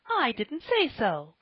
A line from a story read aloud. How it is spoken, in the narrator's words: cried Polly